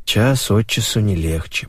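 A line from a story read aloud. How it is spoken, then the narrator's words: Muttering. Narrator (Russian): пробормотал Леша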